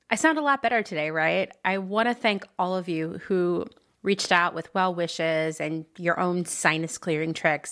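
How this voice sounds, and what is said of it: Slightly hoarse voice. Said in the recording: “I know I'm a little hoarse.”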